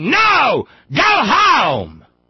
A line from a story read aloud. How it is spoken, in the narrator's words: 700 people screaming